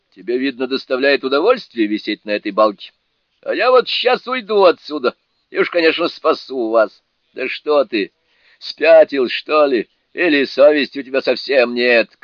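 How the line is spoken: Shouting. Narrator (Russian): крикнул Джубадзе

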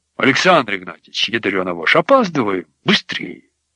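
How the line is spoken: Displeased impatient mutter. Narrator (Russian): охранник Толик, который недовольно бормотнул

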